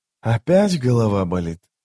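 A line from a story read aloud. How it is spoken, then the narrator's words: Gentle question. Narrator (Russian): мягко спросил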